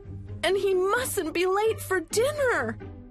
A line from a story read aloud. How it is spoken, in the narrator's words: wailed Molly